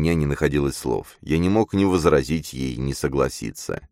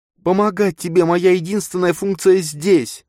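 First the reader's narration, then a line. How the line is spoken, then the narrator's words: Nearly shouted. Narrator (Russian): едва не выкрикнула девушка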